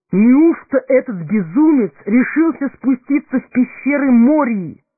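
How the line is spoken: Exclaimed. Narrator (Russian): воскликнул Селеборн

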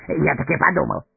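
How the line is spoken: Rapid chatter. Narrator (Russian): затараторил он

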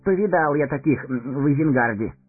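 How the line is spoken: Snorting remark. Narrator (Russian): хмыкнул Мэри

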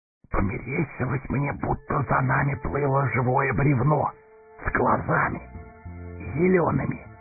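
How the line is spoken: Whisper. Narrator (Russian): шепнул Сэмми

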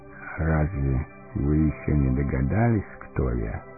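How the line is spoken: Quiet old man. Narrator (Russian): тихо спросил старец

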